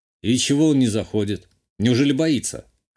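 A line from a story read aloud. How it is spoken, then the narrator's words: Snort, then raised voice. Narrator (Russian): хмыкнул я и повысил голос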